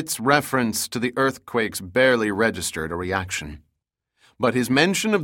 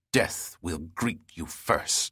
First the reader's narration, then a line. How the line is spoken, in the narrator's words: he spat